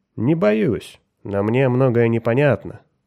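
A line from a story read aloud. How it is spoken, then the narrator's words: Calm objection. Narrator (Russian): спокойно возразил Меррик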